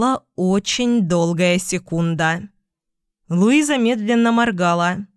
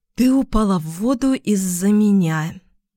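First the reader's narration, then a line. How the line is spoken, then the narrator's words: Breathed out. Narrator (Russian): выдохнул я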